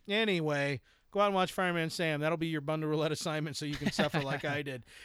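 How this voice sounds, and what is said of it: Usual voice. Nothing is said of it.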